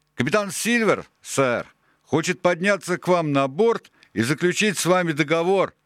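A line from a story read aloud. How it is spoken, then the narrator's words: Shouting man. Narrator (Russian): прокричал он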